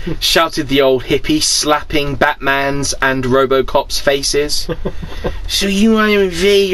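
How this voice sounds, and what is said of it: Usual voice. Nothing is said of it.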